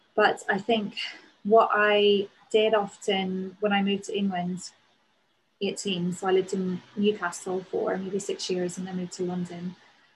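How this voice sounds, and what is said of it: Northern Irish accent. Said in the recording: “my accent ... not specific to Northern Ireland”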